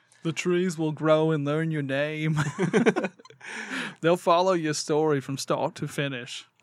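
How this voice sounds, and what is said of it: Poor Peter Molyneux accent impression. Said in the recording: “Peter Molyneux. ... accent that you just did was about as good as your evil laugh, though.”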